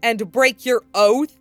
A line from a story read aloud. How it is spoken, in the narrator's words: he snarled